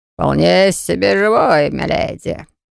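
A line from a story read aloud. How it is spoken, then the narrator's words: Hoarse drawl, troll. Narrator (Russian): протянул в ответ хрипло, тролль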